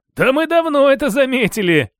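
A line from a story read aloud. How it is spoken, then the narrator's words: Laughing. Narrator (Russian): рассмеялся Виктор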